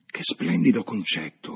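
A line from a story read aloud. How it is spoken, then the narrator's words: Murmured. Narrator (Italian): mormorò Lucy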